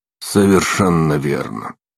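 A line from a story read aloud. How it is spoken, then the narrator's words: Dry reply. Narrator (Russian): сухо ответил Ардал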